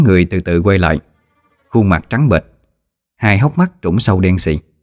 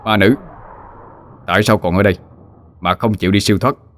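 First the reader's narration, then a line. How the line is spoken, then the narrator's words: Harsh, intimidating. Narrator (Vietnamese): Mình gằn giọng thị uy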